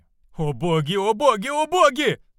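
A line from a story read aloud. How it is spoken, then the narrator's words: Spirit screaming. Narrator (Russian): закричал дух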